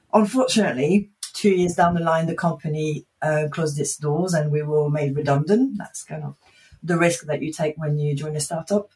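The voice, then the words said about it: Slight French accent. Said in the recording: “I have a bit of a French accent”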